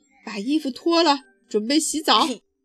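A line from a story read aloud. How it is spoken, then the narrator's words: Panting father bear. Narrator (Chinese): 熊爸爸 气喘吁吁地说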